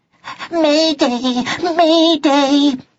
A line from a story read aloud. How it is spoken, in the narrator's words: he squeaked at the top of his voice